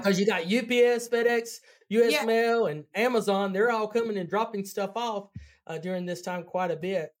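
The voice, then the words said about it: Southern American accent. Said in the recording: “I love your accent ... I'm from North Carolina ... My sophisticated Southern accent”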